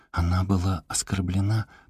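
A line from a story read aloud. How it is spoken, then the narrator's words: Whispered. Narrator (Russian): прошептала Мона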